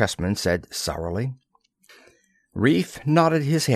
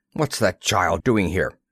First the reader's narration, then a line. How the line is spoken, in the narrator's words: Plekhanov snapped